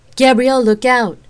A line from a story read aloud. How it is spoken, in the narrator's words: Queen Melosa yelled out